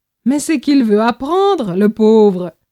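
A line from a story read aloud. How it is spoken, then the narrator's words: Amused exclamation. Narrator (French): s'exclame en me lançant un regard amusé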